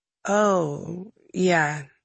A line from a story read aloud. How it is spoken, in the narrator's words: he said slowly